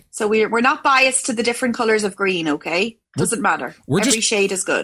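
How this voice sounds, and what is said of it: Irish accent. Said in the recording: “we just love your accent. It is so awesome.”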